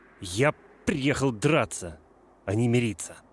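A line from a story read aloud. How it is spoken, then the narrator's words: Muffled angry interruption. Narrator (Russian): Грант перебил меня, сказав глухо и зло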